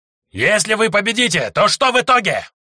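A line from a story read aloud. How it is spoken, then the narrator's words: Shouting at top of lungs. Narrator (Russian): во все горло кричал Змееголовый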